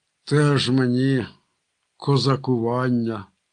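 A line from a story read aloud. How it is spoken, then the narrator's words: Disappointed grumble. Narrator (Ukrainian): розчаровано буркнув Марко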